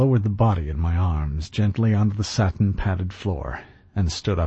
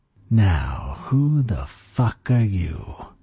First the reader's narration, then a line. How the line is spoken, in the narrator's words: he hissed